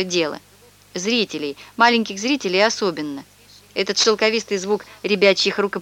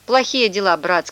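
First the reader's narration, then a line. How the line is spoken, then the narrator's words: Gloomy. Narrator (Russian): сказал Панаргин мрачно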